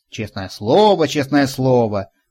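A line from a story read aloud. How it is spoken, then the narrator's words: Old man's grumble. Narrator (Russian): проворчал старик Хоттабыч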